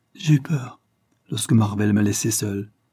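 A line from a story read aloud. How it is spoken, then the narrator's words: Murmured. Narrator (French): murmura-t-elle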